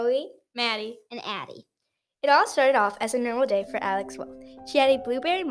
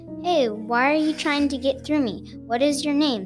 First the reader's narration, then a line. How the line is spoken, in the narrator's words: said the knob